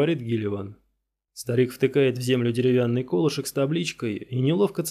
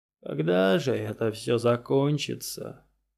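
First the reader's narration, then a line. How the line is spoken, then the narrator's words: Old man muttering. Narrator (Russian): бормочет старик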